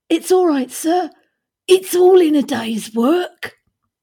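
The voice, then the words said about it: Dickensian workhouse accent. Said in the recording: “That was your best Dickensian workhouse accent. Well done. I was very impressed.”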